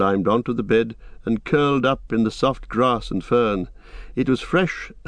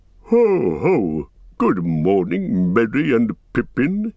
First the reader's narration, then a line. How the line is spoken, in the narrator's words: he boomed